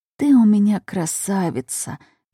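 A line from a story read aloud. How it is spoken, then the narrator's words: Mother's tender farewell whisper. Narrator (Russian): прошептала ей на прощание мама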